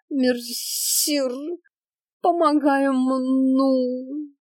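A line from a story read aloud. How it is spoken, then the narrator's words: Theatrical moan. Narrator (Russian): Картинно закатывая глаза, простонала с земли Аленка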